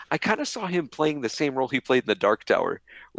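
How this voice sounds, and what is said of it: Usual voice. Nothing is said of it.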